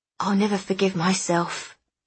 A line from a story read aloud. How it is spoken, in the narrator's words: she whispered